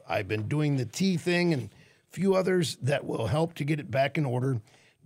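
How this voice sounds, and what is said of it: Slightly rough, hoarse voice. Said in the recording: “allergies are kicking up a little. That's why I know my voice is a little rough.”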